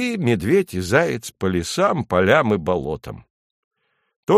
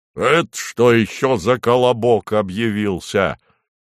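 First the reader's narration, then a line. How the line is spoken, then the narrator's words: Bear's roar. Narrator (Russian): рявкнул медведь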